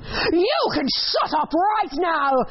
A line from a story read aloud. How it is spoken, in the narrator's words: roar